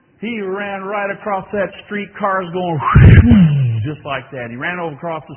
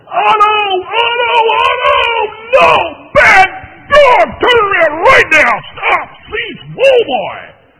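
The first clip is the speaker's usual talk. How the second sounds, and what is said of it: Yelling at the top of voice. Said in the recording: “I'm yelling to the top of my voice”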